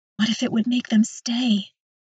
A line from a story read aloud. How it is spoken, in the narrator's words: whisper back